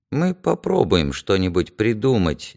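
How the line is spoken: Uncertain. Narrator (Russian): неуверенно сказал Глеб

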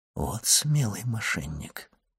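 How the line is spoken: Whispered. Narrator (Russian): прошептал граф

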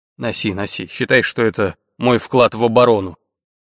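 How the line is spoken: Wry snort. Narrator (Russian): Ник хмыкнул

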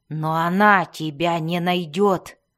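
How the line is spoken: Defiant growl. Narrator (Russian): прорычал Белвар, бросая вызов Искниктику и этой неведомой матери его нового друга

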